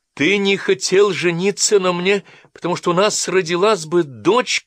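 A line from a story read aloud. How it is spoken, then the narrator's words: Shouting. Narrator (Russian): крикнула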